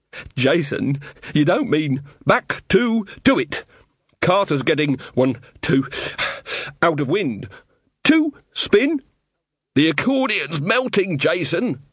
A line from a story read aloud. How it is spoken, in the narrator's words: sobbed Carter